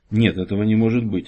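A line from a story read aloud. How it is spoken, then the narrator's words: Whisper. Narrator (Russian): прошептал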